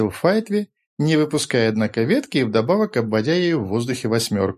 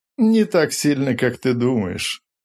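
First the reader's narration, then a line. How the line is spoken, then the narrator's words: Laughing voices together. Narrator (Russian): засмеялись Сиды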